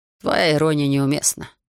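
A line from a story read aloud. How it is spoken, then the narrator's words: Calm. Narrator (Russian): спокойно ответил он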